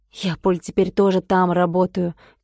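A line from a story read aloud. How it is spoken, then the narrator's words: Quiet. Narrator (Russian): тихо сказал Дмитрий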